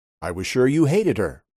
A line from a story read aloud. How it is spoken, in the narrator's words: her father said